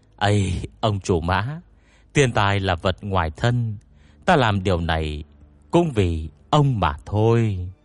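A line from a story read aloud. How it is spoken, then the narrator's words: Awkward sigh. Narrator (Vietnamese): Tiêu hòa thượng thở dài khó xử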